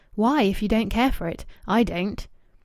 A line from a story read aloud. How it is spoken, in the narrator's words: Louis asked sharply